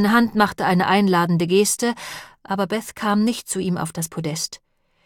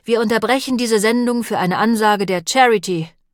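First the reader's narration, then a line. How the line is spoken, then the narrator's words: Loud again. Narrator (German): sagte er, jetzt wieder laut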